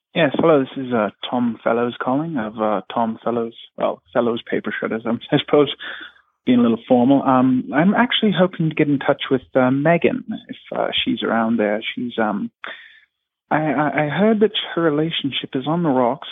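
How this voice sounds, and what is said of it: Fake British accent. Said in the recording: “this accent sounds fake. ... Tom Fellows is a British character”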